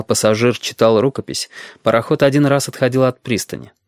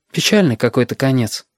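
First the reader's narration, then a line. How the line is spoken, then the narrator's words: Sighing child. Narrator (Russian): вздохнул мальчик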